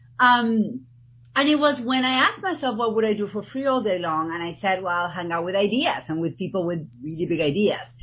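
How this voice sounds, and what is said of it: Argentine-accented English. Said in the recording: “people are going to spend the next whatever minutes trying to figure out my accent. I'm from Argentina.”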